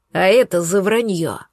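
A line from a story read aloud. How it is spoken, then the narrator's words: Menacing. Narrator (Russian): грозно добавил Волгин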